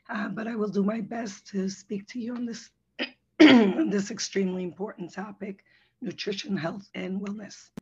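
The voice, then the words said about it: Hoarse, weakened voice. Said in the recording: “excuse me for my voice ... I lost my voice”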